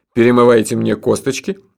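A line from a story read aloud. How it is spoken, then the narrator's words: Cheerful question. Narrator (Russian): бодро спросил герой городского фольклора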